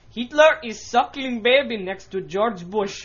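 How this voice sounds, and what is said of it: Attempted Middle Eastern accent, sounds Russian. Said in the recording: “Imagining it was a Middle Eastern accent ... That's Russian. ... I don't know Venezuelan, so I'm just taking ... whatever ... accent”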